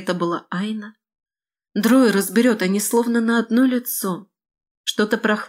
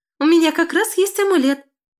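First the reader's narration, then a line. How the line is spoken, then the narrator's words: Squeaking. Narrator (Russian): пискнула Келена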